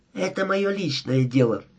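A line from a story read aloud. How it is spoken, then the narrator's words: Loud whisper. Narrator (Russian): громким шепотом сказала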